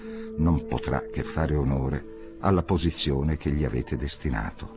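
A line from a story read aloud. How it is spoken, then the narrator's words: Quiet voice. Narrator (Italian): disse sottovoce alla duchessa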